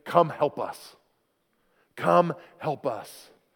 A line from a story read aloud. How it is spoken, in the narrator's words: this Macedonian man is pleading with him and saying